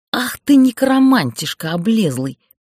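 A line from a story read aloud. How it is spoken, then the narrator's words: Inaudible hiss. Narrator (Russian): неслышно зашипела я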